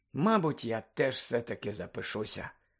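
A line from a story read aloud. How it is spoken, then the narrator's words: Sleepy mumble. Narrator (Ukrainian): сонно пробурмотів у темряві Рон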